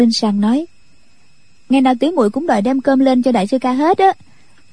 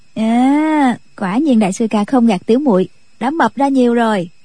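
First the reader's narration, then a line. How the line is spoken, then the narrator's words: Smiling. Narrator (Vietnamese): Nhạc Linh Sang mỉm cười nói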